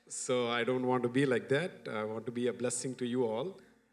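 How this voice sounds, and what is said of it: Accented English, spoken slowly. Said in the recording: “I wanted to really speak slow so that my accent can make you understand.”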